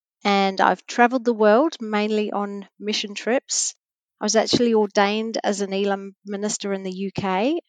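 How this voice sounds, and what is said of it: British accent. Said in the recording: “I'm originally from a small village in the UK, hence my accent.”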